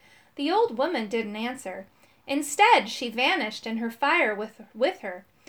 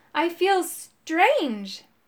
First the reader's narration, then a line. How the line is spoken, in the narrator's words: the werewolf man cried out